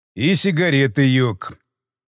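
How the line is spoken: Angry statement. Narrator (Russian): зло сообщил он

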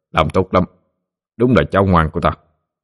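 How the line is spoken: Smiling greeting. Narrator (Vietnamese): mỉm cười lên tiếng chào

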